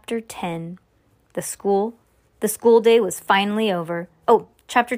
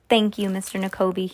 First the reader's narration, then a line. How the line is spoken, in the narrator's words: he said